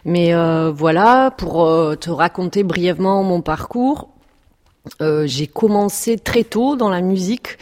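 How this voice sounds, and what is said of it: French with a Perpignan regional accent. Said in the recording (French): “je sais que tu as un très bel accent ... je suis catalane, donc je viens de Perpignan ... j'ai du mal à cacher mon accent”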